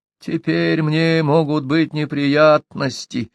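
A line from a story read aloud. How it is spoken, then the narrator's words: Muttering. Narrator (Russian): бормотал Гао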